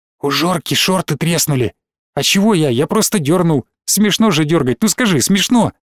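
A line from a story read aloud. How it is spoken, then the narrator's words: Quick whisper. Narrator (Russian): Белобрысый быстро зашептал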